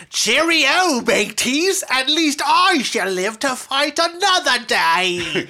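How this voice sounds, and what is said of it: Put-on British accent. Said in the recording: “making fun of somebody with a British accent. Here's his line. Here's my best impression. ... That's spot on.”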